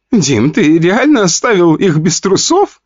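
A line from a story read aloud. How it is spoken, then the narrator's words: Laughing. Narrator (Russian): хохотала Вика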